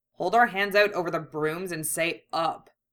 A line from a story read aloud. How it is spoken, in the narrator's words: Yusuke grumbled